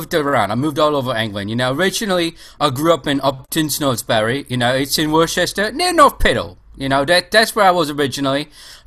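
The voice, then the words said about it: Cockney accent. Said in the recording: “a distinct Cockney accent”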